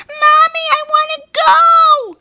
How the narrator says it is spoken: cried the youngest boy

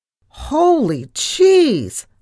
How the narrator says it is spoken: I cried in horror

